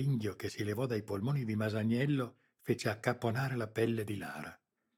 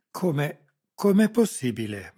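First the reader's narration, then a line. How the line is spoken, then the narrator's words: Stammered. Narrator (Italian): balbettò Sarrese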